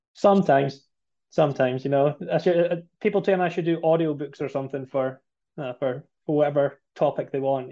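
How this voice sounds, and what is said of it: Strong Scottish accent. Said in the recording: “that accent is not from the region you're working in right now, South Shore of Boston ... born and bred in Scotland ... the accent's still pretty strong ... I've got to make sure I slow things down for us today so the listeners can understand the brogue ... The Scots do talk fast ... it's an amazing accent”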